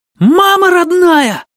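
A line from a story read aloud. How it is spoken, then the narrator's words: Yelling. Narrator (Russian): завопил Тил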